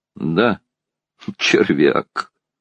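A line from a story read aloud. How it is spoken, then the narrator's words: Gloomy. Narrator (Russian): уныло покачал головою Андрей Ильич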